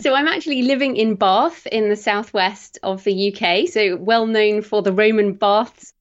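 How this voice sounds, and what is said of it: British accent. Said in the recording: “I love British accents.”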